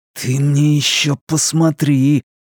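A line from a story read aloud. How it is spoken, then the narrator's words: Catlike hiss. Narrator (Russian): по-кошачьи прошипел Луис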